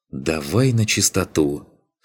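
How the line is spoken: Sighing, patiently explaining. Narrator (Russian): снова вздохнул Беркут, словно объясняя ребенку простые истины

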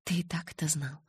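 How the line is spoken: Timid. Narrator (Russian): робко проговорила я

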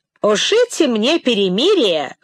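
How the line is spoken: Abrupt interrupting exclamation. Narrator (Russian): воскликнул он, внезапно перебил речь величавого храмовника

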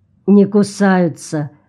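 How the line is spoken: Gloomy reply. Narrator (Russian): мрачно ответил Джон

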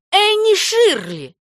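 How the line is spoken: Exclamation. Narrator (Russian): воскликнула она

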